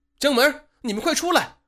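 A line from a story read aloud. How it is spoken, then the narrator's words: Shouting. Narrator (Chinese): 高厂长 再一次的向浴室里喊话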